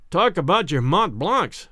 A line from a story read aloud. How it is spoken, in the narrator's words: exclaimed